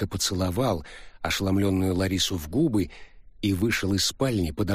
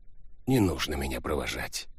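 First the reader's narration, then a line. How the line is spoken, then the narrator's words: Soft, after short pause. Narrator (Russian): Джа выдержал коротенькую паузу, мягко произнес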